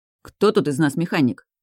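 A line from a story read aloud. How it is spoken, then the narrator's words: Somewhat irritated question. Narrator (Russian): Интересуюсь несколько раздраженно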